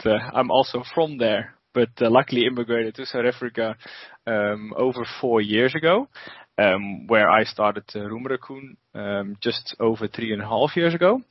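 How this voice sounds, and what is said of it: Dutch accent. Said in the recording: “We started in the Netherlands, as you can hear from my beautiful accent.”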